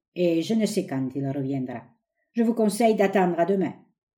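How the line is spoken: Curt, dry. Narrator (French): dit-il sèchement

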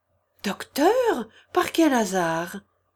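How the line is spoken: Exclaiming. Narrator (French): s'écria Oblomov

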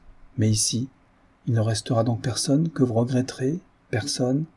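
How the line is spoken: Timid, very low voice. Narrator (French): Elle avait dit cela timidement, la voix très basse, dans ce bruit de rire, mais elle lui parlait plus bas encore

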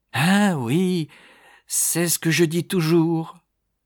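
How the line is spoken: Unexpectedly lively exclamation. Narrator (French): s'écria Madame Gradgrind avec une vivacité inattendue

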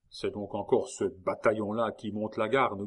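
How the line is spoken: Grumbling. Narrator (French): grogna-t-il

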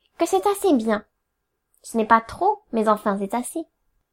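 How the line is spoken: Quick retort. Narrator (French): repartit vivement ma sœur

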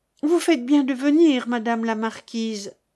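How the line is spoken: Plain. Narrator (French): dit-elle

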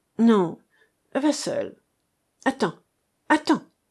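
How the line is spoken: Exclamation. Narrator (French): s'écria-t-il

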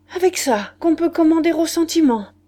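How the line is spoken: Pathetic exclamation. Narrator (French): Il s'écria d'un ton pathétique

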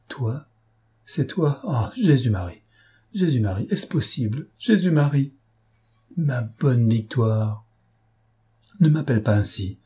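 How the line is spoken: Shivering exclamation. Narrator (French): s'écria-t-elle en frissonnant

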